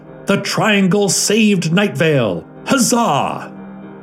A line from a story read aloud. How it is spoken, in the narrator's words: yelling